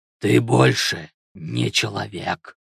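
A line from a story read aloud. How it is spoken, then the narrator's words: Growling voice. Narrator (Russian): начал вожак рычащим голосом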